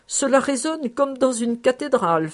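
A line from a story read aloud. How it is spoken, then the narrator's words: Laughing. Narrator (French): faisait en riant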